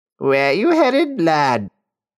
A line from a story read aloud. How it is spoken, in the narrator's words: Her voice was nasally and harsh